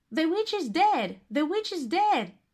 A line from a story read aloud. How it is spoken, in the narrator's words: Gretel shouted